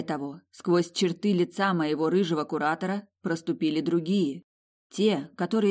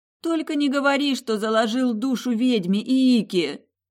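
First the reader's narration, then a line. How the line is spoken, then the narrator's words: Moaning. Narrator (Russian): Простонала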